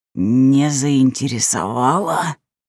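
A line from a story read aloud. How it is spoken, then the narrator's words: Indignant angry growl. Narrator (Russian): возмущенно рыкнул граф, моментально выходя из себя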